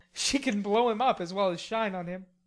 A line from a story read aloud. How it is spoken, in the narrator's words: laughed Laurie